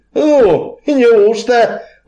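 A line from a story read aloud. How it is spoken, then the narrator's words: Exclaiming. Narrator (Russian): воскликнул Артем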